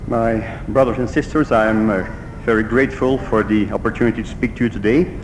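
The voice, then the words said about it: Belgian accent, Dutch native speaker. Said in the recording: “my accent. It's a Belgian accent of someone whose mother tongue is Dutch”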